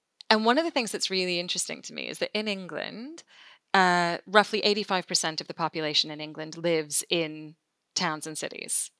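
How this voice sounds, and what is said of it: American accent. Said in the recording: “if people can't tell from the accent, I am not English. I am American, as opposed to Canadian, which is what I often get.”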